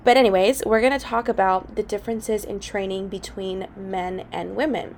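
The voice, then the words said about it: Voice slightly off, sick-sounding. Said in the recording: “my voice sounds a little off, it's because I'm getting over a cold”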